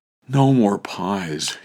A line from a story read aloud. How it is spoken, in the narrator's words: whimpered